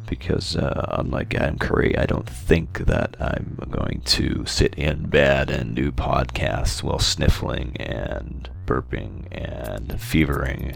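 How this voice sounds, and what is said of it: Voice fading, strained. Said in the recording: “losing my voice real quick here. I don't know if you can tell or not.”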